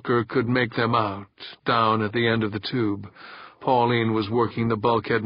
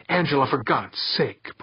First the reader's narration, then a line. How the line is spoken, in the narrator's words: Pauline snapped